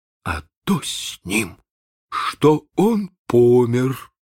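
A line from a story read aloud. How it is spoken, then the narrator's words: Muffled, hollow voice. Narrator (Russian): отвечал глухо Чекко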